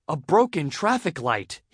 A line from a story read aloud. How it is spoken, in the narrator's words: he cried